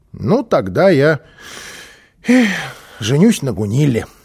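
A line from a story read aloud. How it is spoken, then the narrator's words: Sighing child. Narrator (Russian): вздохнул малыш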